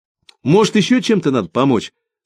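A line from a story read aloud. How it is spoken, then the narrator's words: Plain. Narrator (Russian): спросил Алеша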